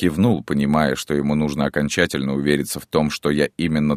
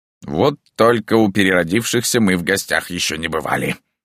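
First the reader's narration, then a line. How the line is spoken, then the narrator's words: Grumbling with hint of confusion. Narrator (Russian): проворчал Марио, но я уловил в его голосе нотки растерянности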